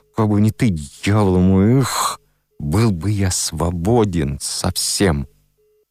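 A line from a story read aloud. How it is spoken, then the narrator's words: Through gritted teeth. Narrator (Russian): сквозь зубы говорил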